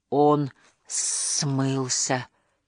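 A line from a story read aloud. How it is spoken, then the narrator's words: Astonished whisper. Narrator (Russian): изумленно прошептал Беззубик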